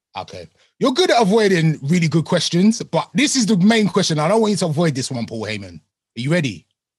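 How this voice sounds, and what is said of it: British accent. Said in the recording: “before you affected the British accent.”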